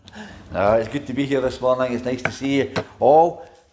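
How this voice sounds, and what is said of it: Accent with a twang. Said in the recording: “You might not understand his accent. He's got this twang.”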